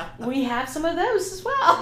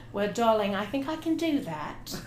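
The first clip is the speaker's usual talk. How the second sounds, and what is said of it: Put-on British accent. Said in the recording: “give us your best British accent”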